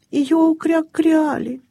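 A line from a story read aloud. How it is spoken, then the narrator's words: Sad. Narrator (Russian): печально проговорил крячик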